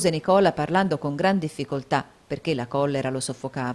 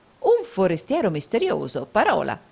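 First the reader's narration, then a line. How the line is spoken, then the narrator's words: Exclaimed. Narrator (Italian): esclamò il baronetto Mulberry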